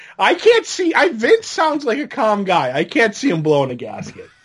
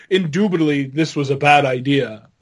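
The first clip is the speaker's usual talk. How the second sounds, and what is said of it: Imitates another person's voice. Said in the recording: “That's my Vince impression.”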